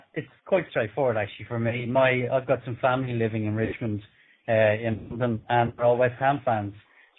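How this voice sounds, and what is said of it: Irish accent. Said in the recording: “From your accent, I think most people can work out you were born in Ireland.”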